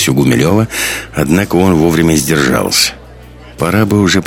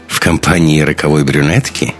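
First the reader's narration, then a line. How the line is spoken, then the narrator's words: Snide question. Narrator (Russian): ехидно спросила Катарина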